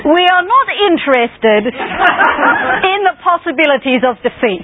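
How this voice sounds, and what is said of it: Posh English Queen Victoria voice. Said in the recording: “Queen Victoria once said, I should put on a posh English accent, shouldn't I?”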